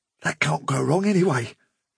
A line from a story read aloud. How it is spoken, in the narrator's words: he whispered